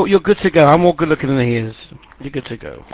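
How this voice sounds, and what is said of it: London accent. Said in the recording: “nice accent from London”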